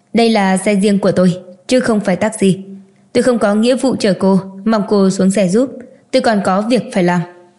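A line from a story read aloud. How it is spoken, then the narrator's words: Cold voice. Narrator (Vietnamese): giọng nói lạnh lùng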